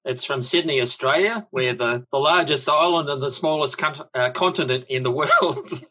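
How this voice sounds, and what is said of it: Australian accent. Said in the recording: “where that awesome accent's from ... it's a good accent. I love that accent.”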